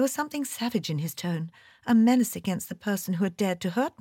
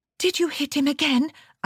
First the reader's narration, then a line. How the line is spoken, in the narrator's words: I called breathlessly